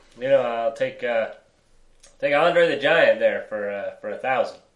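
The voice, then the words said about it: Poor imitation of another person's voice. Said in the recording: “That's the worst Norm MacDonald impression. I know you're better than that.”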